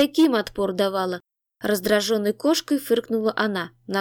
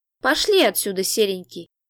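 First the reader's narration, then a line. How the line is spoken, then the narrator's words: Gentle cooing. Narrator (Russian): Ласково проворковала она оборотню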